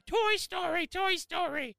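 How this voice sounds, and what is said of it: Frantic screaming in a put-on voice. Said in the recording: “just started screaming ... I'm sure I sounded like a lunatic ... What was that voice? ... That's how I imagine Sean jumping up from his desk.”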